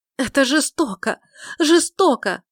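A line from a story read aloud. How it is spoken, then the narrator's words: Shouting, holding back sobs. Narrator (Russian): закричала леди Уинсли, тщетно стараясь сдержать рвущееся наружу рыдание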